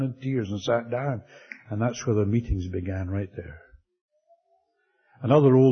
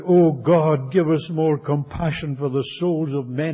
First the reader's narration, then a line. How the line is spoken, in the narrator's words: a young fellow, his name was Tom, he'd only been saved a year, suddenly stood up in the prayer meeting and he cried out